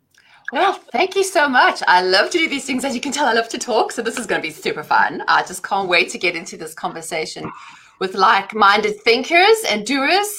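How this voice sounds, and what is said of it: South African accent. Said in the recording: “as you can tell, I have an accent. I'm originally from South Africa”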